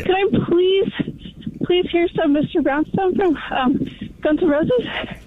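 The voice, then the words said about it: Breathless, out-of-breath voice. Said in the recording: “I'm out of breath... She was totally out of breath.”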